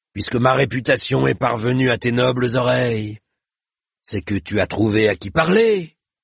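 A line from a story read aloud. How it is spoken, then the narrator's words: Sneering. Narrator (French): ricana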